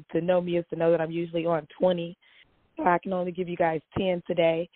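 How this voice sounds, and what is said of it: Hoarse, strained voice. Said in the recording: “I'm losing my voice a little bit”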